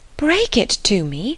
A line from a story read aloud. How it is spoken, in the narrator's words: cried Emma, standing still with terror